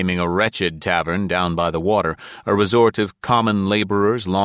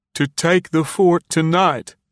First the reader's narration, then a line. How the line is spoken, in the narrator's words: he said, doggedly and sobbing